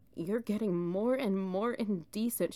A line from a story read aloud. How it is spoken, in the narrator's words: cried